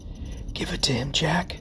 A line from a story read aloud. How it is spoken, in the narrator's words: Benny whispered